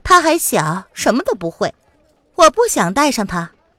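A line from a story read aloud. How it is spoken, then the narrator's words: Smiling. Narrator (Chinese): 季如兰微笑着说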